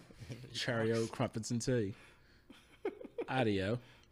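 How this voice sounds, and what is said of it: Put-on British accent. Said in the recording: “I got a British accent, you know.”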